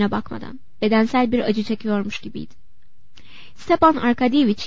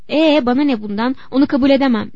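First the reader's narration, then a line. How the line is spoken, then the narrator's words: Shouting. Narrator (Turkish): diye bağırdı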